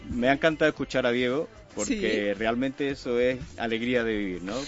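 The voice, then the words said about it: Andalusian Spanish accent from Jerez. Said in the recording (Spanish): “¿De dónde eres con ese acento, ... Soy de Jerez de la Frontera.”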